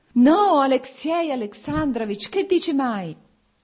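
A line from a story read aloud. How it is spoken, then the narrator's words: Pained shout. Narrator (Italian): gridò Oblonsky e la sofferenza si espresse sul suo viso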